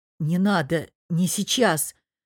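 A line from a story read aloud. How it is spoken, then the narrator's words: Hoarse, strained. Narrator (Russian): хрипло выдавил шеф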